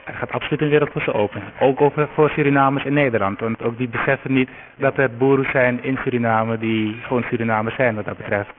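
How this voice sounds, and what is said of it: Noticeable non-Netherlands Dutch accent. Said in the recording (Dutch): “accent is anders ... misschien hoor je het ook nu hierover, hoor je toch een accent”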